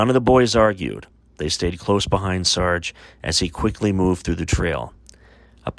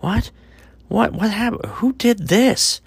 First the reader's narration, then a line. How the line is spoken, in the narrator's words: Thomas cried out